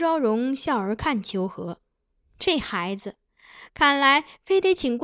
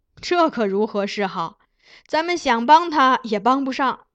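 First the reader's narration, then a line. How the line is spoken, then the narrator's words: Sighing then laughing. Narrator (Chinese): 金上叹叹气，对苗昭荣笑道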